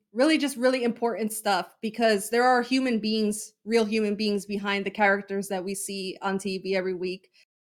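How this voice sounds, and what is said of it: Choked up, emotional voice. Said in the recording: “getting emotional ... I'm getting choked up.”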